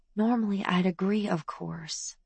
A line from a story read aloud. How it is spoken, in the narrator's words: Mom whispered back